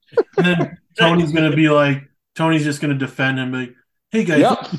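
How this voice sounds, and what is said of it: Usual voice. Nothing is said of it.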